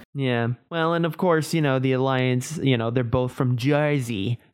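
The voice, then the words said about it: Bad attempt at a Jersey accent. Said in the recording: “I'm never going to do that again. I'm sorry. ... that was really bad. ... Bad. I can do a New York accent. I can't do a Jersey accent.”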